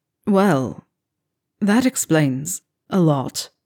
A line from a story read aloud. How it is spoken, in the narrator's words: he croaks